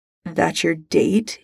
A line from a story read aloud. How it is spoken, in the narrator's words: sneers